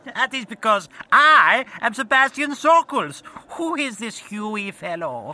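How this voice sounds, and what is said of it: Put-on German accent. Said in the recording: “Sockles is German ... I'm doing a German fucking accent”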